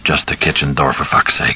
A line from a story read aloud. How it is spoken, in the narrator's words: he muttered raggedly